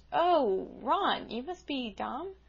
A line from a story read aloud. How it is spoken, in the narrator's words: she seemed surprised for a moment, but suddenly she exclaimed